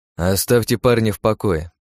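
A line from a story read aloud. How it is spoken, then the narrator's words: Grumble. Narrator (Russian): проворчал я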